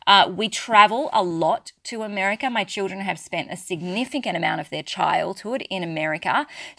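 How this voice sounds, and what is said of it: Australian accent. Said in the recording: “I'm very clearly Australian, if you haven't picked that up from my accent”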